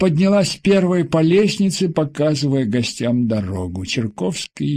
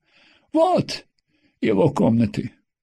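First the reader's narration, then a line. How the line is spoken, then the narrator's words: Sighing. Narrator (Russian): вздохнула Тина Михайловна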